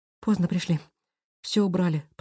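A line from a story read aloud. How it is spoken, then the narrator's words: Whispering. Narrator (Russian): прошептала она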